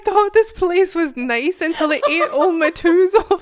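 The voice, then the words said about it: Attempted Scottish accent. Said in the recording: “I can't say toes in a Scotch accent.”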